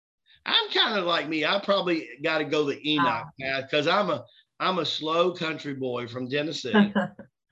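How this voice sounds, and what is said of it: Southern twang accent. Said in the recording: “That's why you hear the Southern twang.”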